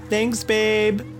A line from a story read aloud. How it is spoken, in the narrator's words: yelled